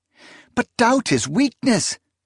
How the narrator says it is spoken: Proyas cried

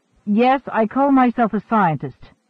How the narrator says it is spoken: Tarrant snapped

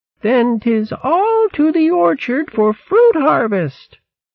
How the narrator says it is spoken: called out in a reedy quaver

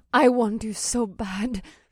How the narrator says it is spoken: whimpered

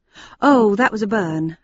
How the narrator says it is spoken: I replied hastily

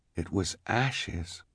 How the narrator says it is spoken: Klaus said quietly

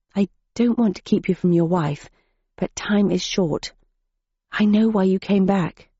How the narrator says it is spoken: said, in a respectful whisper

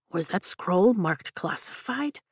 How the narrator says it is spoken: Liam asks under his breath

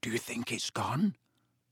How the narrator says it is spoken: Harry whispered

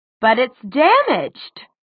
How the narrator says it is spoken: she exclaimed

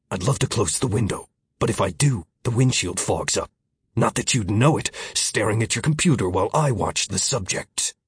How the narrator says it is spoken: Miller growled

